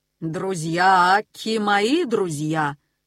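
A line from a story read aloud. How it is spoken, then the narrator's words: Solemn eagle. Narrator (Russian): торжественно сказал орел Горго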